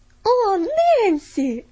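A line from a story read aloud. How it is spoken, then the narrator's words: Exclaimed. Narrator (Russian): воскликнула Полиана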